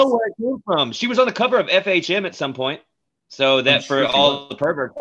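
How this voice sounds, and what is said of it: Usual voice. Nothing is said of it.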